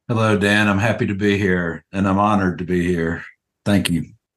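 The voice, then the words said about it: Alabama accent. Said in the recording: “the Alabama accent”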